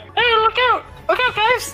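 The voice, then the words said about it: Tiny cat-creature voice. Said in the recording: “little cat tabaxi voice”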